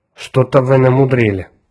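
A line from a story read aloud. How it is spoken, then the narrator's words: Grumbling. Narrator (Russian): проворчал Отто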